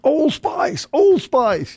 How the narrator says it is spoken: a bunch of guys hollered

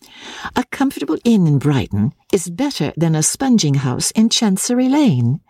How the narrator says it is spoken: his wife answered cheerfully

